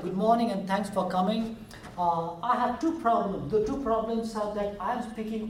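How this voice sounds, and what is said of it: Indian accent, speaking slowly. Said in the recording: “I have an exotic Indian accent, as you can tell. I'm trying to speak slow and a little bit with less accent.”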